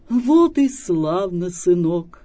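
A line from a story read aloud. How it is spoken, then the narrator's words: Plain. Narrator (Russian): говорит перехожий калика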